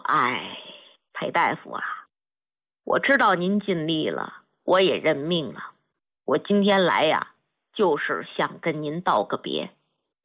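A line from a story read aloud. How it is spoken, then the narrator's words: Sighing old soldier. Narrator (Chinese): 老兵 叹了口气，说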